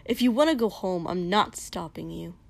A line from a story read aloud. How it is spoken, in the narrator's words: Kosuke spat finally